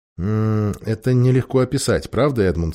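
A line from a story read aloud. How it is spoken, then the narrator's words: Plain. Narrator (Russian): сказал верховный король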